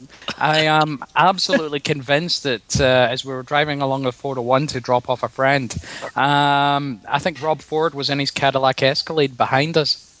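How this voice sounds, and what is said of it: Hoarse, sore-throat voice. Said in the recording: “Your accent sounds a little like, was that Tobacco? ... I've got a bit of a sore throat.”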